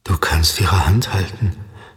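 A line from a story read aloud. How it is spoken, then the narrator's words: Quiet. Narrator (German): sagte er leise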